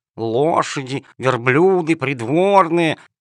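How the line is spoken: Muttering under breath. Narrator (Russian): ворчала она себе под нос

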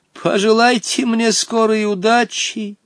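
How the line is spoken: Exclaiming. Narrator (Russian): воскликнул Хоттабыч

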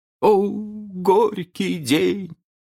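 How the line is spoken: Old man groaning. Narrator (Russian): простонал старкий джентльмен

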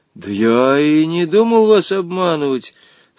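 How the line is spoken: Trembling, frightened lie. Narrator (Russian): соврал дрожащим голосом Женя, чувствуя, что теперь-то он окончательно пропал

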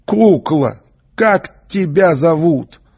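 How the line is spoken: Loud question. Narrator (Russian): Доктор не выдержал и громко спросил

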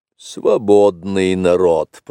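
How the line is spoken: Grumble. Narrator (Russian): проворчал Ка

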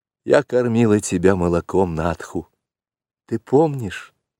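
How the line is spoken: Timid question. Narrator (Russian): робко спросила Мессуа

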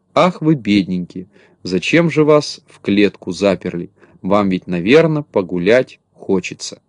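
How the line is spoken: Sad sighing. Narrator (Russian): грустно вздыхала и говорила

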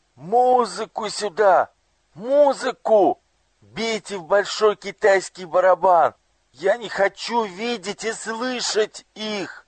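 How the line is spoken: Anguished, frightened shout. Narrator (Russian): Ему стало так тяжело, так страшно, что он закричал

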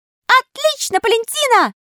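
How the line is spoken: Thin little voice shouting. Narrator (Russian): закричал невесть откуда тоненький голосок

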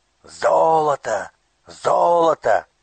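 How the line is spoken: Shouting crowd. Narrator (Russian): кричали разбойники

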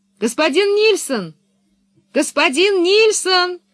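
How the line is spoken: Full-throated yell. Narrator (Russian): заорала она во все горло, ничуть не боясь потревожить сон быка

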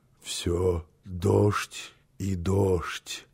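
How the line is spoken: Half-conscious mutter. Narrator (Russian): пробормотал он еще в полузабытии

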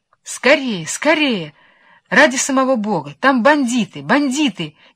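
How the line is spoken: Shouting after them. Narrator (Russian): кричала им вслед Вишенка

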